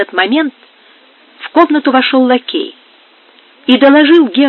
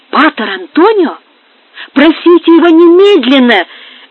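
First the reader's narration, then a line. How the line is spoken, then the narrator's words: Joyful exclamation. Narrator (Russian): воскликнул герцог радостно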